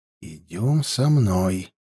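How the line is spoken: Quiet command. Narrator (Russian): тихо велел он

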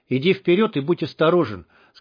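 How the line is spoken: Plain. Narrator (Russian): сказал Штык ефрейтору

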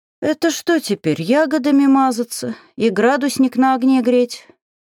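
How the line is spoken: Sighing from behind. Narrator (Russian): вздохнул за моей спиной Шараэль

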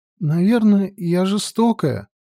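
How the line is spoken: Sobbing. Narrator (Russian): всхлипывая, сказала она

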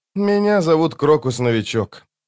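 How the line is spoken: Resigned sigh. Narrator (Russian): признал поражение и вздохнул

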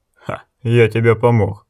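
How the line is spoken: Snorting. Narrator (Russian): фыркнул молот

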